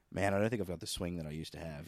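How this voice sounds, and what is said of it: Low, ashamed imitation of another person. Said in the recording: “That's a pretty good Capper impression, dude ... I can only do the low speech of one ... I can only do a shamed Capper”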